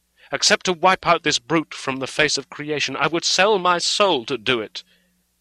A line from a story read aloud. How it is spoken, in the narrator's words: answered hotly